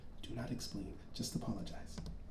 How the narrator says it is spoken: his eldest sister mumbled under her breath

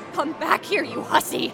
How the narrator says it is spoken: Anna barked

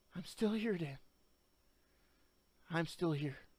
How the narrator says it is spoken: she whispered softly

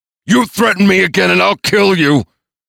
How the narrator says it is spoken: screamed in his face

